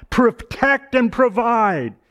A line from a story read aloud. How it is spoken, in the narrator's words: And these little boys, like little boys will do, they posture up and shout out